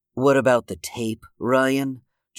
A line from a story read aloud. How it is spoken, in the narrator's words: Joseph scoffed